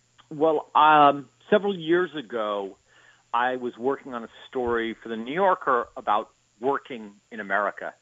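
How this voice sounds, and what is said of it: New York accent. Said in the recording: “you don't have the New York accent ... I certainly do”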